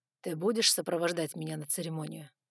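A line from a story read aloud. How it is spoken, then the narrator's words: Dragon asking softly. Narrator (Russian): мягко спросил дракон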